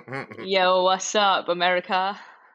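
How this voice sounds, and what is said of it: Put-on American accent. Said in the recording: “that's so good my American accent ... do your your American accent again”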